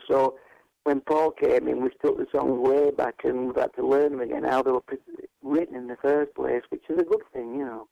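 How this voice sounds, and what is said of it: Yorkshire English accent. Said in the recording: “I hope people can understand my accent. ... what was Yorkshire people”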